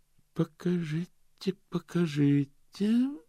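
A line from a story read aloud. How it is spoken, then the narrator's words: Measured thoughtful voice. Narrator (Russian): сказал он взвешенным задумчивым голосом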